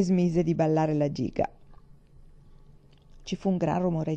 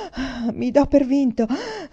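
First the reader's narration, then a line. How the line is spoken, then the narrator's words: Panting. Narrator (Italian): disse ansimando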